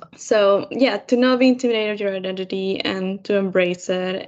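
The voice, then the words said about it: Non-native English accent. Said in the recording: “my accent because that's something that people always point out ... English is not my first language”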